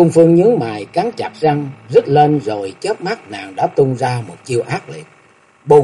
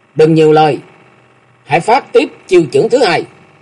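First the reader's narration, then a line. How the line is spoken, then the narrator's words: Angry shout. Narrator (Vietnamese): Hà Thái Ngọc quát mắt giận dữ nói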